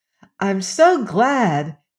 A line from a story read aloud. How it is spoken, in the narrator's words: exclaimed Dorothy